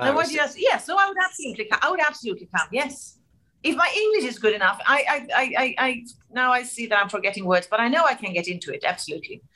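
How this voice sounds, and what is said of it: Non-native speaker's lovely English accent. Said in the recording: “I think I have a lovely accent.”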